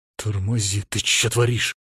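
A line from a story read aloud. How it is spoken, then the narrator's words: Hissing. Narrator (Russian): зашипел я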